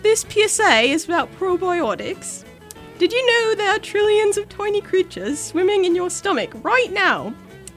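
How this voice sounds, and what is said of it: Put-on British accent. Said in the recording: “I'm going to do this in a British accent ... I was told I have a really good one”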